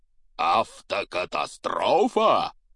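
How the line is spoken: Booming roar. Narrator (Russian): прогремел Хагрид

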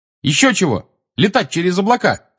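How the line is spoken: Angry shout. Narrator (Russian): сердито крикнула ему Тонкс

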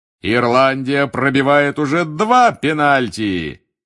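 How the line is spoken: Loud bark. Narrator (Russian): гаркнул Бегман

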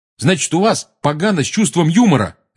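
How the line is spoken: Barked. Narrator (Russian): рявкнул Рон

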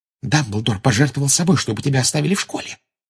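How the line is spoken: Secretive whisper. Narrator (Russian): прошептала Гермиона, прикрывшись книжкой, чтобы не увидела Амбридж

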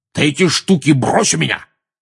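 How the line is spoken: Uncle barking. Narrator (Russian): рявкнул дядя Вернон

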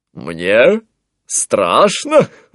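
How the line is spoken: Laughing. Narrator (Russian): рассмеялся Антуан

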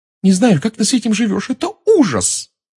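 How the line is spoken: Blurted out. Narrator (Russian): выпалила она

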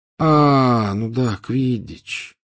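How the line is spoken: Drawling. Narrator (Russian): протянул он

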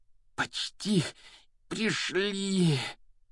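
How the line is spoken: Heavy panting. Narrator (Russian): Тяжело выдохнул Гарри

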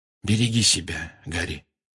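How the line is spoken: Quiet. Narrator (Russian): негромко сказал Люпин

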